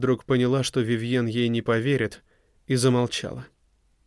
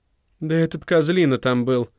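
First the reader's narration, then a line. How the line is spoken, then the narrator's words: Indignant, through gritted teeth. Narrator (Russian): в негодовании процедила Вивьен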